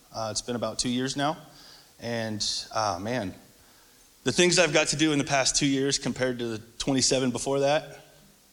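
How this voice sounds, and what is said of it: Emotional, choked-up voice. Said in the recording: “I'm getting a little choked up”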